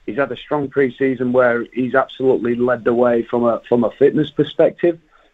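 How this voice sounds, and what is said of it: Yorkshire English accent. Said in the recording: “I love the accent. I love that Yorkshire accent.”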